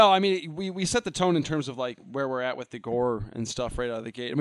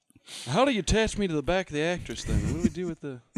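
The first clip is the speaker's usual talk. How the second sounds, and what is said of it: Poor imitation of another person's voice. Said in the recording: “It's not a good Cage impression. ... Neither one was good. ... It's the best I can do.”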